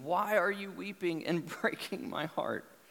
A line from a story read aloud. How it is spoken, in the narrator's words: Paul cries out